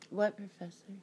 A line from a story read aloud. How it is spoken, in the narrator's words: asked softly